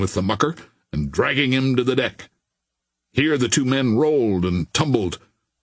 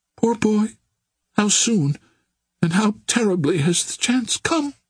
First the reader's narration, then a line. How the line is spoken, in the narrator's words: moaned the girl